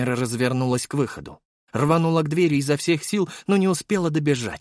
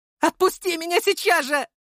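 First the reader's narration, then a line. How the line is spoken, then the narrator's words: Shouting. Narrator (Russian): закричала она в лицо отца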